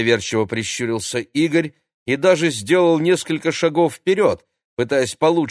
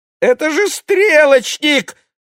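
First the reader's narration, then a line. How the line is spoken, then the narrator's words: Terrified squeak. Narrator (Russian): в ужасе пискнул Владик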